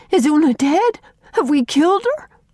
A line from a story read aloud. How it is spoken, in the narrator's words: gasped Faith